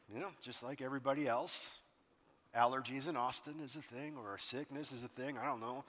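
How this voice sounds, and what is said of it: Raspy voice. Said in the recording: “Please forgive my raspy voice.”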